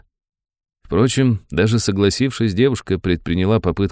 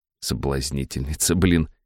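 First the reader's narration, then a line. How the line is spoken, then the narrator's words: Inward snort. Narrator (Russian): хмыкнул я про себя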